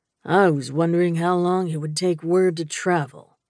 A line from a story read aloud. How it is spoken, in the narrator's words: he said blandly